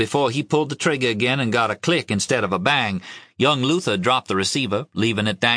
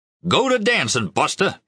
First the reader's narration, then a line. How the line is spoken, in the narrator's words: he yelled